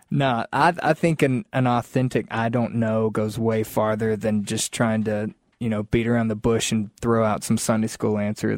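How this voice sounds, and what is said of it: Southern American accent. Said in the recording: “we want to hear a Southern accent.”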